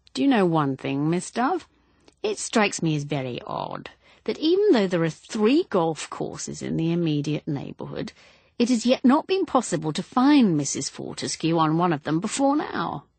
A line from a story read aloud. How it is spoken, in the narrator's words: He said, in a pleasant voice